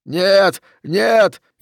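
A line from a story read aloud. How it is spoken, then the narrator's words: Frantic screaming. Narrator (Russian): истошно кричал Окси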